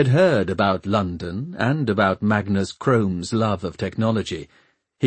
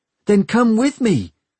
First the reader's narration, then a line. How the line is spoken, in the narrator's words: she had pleaded